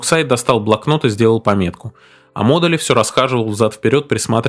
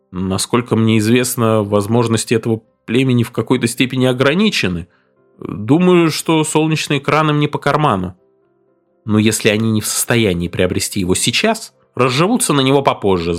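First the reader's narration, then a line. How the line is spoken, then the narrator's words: Timid objection. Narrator (Russian): Орин осмелился робко возразить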